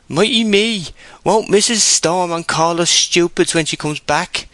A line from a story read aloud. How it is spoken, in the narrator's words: moaned